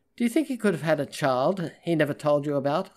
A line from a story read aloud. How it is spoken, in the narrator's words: I asked